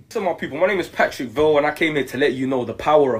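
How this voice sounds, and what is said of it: British accent. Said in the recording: “this guy is British, so he has a British accent”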